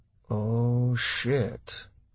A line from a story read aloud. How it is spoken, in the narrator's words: Roch muttered